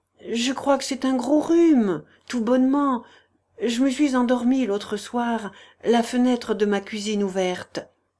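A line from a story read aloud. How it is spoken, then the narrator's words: Stammered. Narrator (French): balbutia Germinie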